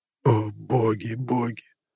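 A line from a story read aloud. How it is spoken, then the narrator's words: Moaning. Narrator (Russian): застонал помощник капитана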